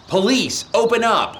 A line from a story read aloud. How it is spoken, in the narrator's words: Perry immediately started banging and shouting